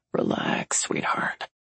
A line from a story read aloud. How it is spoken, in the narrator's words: Reese murmurs near her ear